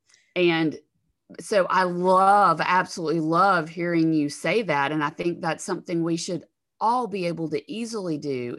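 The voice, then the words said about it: Southern US accent, Alabama. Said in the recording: “in the South, the Southern part of the United States where I live, I'm sure you can tell from my accent, but so I'm from Alabama.”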